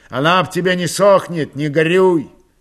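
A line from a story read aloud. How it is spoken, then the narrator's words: Shouted. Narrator (Russian): крикнул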